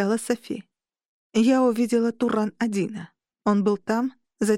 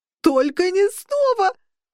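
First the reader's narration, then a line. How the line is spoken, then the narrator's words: Howling. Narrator (Russian): взвыл Орру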